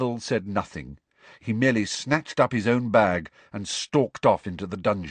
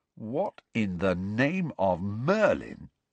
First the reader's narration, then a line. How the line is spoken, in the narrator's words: said Ron slowly